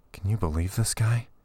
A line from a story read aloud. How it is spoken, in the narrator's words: He whispered to her